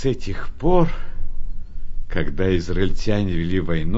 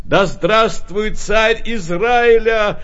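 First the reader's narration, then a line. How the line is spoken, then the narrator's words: Joyful crowd shouting. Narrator (Russian): радостно кричали они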